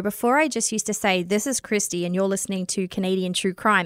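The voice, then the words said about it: Australian accent. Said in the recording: “your Australian accent ... that doesn't sound like Jordan ... why you have an accent ... this Australian is just not cutting it”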